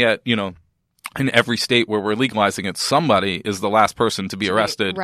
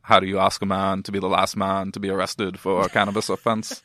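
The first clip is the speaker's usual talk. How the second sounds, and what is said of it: Imitates another person's voice. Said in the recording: “That's my John Kerry circa 1973 ... impression ... So authentic”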